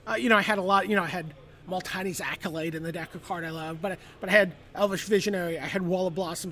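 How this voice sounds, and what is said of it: Congested, nasal voice. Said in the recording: “I'm a little congested, so my voice is a little more nasal than usual.”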